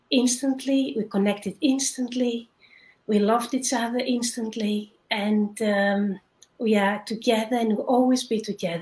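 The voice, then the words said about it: Greek accent. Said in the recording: “where are you from with that beautiful accent? ... I was born in Greece”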